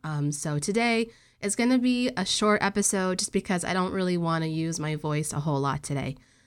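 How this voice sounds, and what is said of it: Congested, nasal voice. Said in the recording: “my voice this episode sounds really congested and nasally and not that great... I have a head cold”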